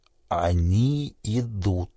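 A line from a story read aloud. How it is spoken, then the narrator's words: Strained, forced out. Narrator (Russian): с трудом выдавил он из себя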